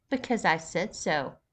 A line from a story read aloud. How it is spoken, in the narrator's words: Caitlin cut in, her voice firm and authoritative